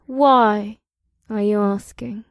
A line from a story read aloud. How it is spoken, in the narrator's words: Amrila purred